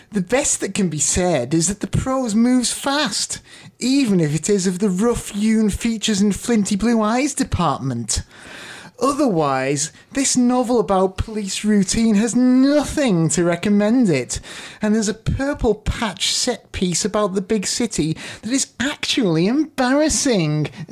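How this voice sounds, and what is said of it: Put-on accent reading a quote. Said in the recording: “It's definitely written in that tone of voice ... that was a very interesting accent you gave him”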